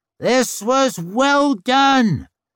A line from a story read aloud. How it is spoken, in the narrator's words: he roared